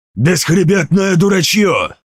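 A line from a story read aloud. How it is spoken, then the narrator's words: Growl. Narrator (Russian): прорычал он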